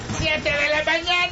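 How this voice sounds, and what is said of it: Shouting. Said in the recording (Spanish): “¿Por qué gritas?”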